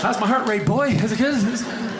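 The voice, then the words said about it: Comic character voice of blind man. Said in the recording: “That was my impression of a blind guy.”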